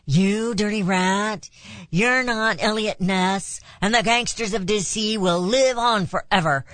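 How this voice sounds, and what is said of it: Imitates another person's voice, badly. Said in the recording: “do a really bad impression of James Cagney”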